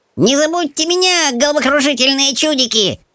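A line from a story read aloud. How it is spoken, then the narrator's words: Squealed. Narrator (Russian): взвизгнул Пискун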